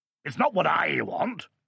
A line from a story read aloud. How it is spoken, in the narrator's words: bellowed the Duke